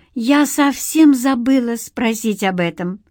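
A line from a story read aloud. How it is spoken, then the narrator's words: Guilty, forced out. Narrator (Russian): выдавила Лора, разом почувствовав себя виноватой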